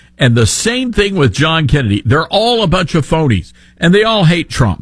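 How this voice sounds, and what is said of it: Usual voice. Nothing is said of it.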